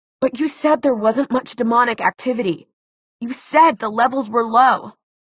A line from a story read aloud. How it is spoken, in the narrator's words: Alec, in a choked voice, said